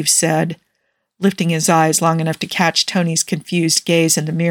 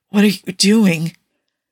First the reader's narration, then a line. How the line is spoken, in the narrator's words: Tony asked with a groan